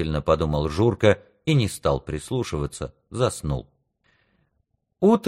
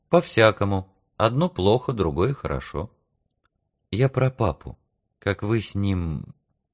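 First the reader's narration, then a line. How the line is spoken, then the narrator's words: Hurt, forced calm. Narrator (Russian): Обида опять колыхнулась в нем, и он сказал нарочно спокойным голосом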